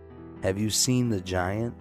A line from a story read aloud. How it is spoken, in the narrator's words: the man asked